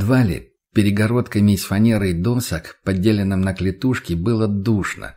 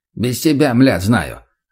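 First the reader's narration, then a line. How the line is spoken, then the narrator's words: Rough snapping retort. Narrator (Russian): огрызнулся бандит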